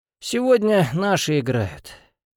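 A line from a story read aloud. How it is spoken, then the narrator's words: Sigh. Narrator (Russian): вздохнул Захаров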